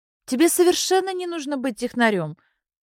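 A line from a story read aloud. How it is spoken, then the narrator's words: Exclamation. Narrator (Russian): воскликнула Белла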